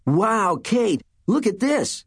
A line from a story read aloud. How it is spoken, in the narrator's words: Mike cried